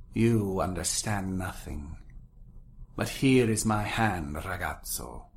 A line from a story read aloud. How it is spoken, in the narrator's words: she said at last with a sigh